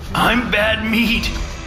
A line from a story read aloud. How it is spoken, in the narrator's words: he said, managing a little laugh at the end